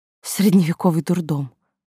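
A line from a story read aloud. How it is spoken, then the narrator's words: Breathy, muffled into cup. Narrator (Russian): выдохнула я в чашку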